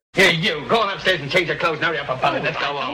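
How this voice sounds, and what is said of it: Imperfect put-on Cockney accent. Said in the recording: “a British accent ... It's a Cockney accent, and it's a little not great”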